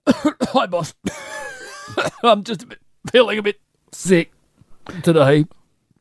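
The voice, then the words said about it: Exaggerated sick voice, Australian accent. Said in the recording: “I'll just do a sick Australian ... that was way too much ... was that over-egging it?”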